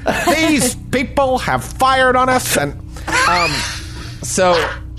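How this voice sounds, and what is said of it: Howard Cosell impression. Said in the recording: “I'm doing Howard Cosell.”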